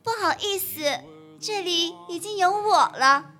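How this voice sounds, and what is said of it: Exaggeratedly coy, cutesy voice. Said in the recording (Chinese): “用比他更嗲的声音说”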